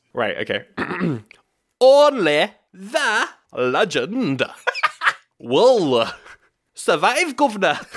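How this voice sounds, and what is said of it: Switching put-on accents, starting Welsh. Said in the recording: “What accent should I try and do? ... So start at Welsh. ... each word has to be a different accent.”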